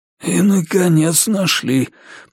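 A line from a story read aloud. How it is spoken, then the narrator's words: Hoarse wheeze. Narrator (Russian): просипел маркиз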